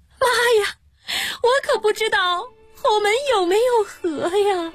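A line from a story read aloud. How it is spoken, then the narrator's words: Bride bursting into tears. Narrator (Chinese): 新娘子醒来，哇的一下哭出了声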